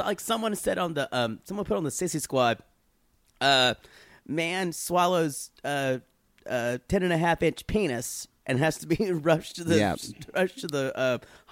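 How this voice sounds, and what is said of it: Raspy, recovering voice. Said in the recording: “I got my voice back. Or I'm starting to. ... It's still a little raspy. Still kind of sound like I got my throat fucked out.”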